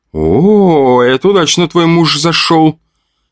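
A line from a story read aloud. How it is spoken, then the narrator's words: Group laughing. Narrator (Russian): хохотали штурмовики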